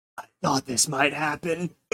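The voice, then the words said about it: Very weak, feeble voice. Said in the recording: “in a very weak voice”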